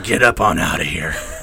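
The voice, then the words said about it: Gravelly demon voice, Batman-like. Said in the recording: “is that my demon voice or is that my Batman voice? ... It does sound like Batman. We got to work more on that.”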